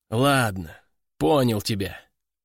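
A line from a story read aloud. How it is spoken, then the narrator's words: Sigh. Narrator (Russian): вздохнул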